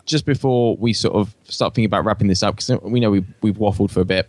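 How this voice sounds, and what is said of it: Australian accent. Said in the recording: “my Aussie accent coming through”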